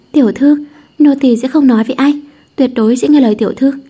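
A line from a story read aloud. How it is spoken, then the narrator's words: Feigned fear, amused. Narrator (Vietnamese): Xính Đình cảm thấy buồn cười, song vẫn cố ra vẻ sợ hãi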